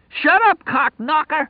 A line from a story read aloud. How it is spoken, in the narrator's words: He screamed